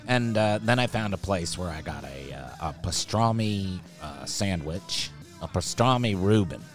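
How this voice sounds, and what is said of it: Dusty Slay impression. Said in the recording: “doing a Dusty Slay voice. I think I'm getting it down.”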